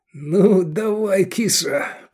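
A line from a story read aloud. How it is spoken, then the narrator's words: Trembling voice. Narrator (Russian): проговорил он подрагивающим голосом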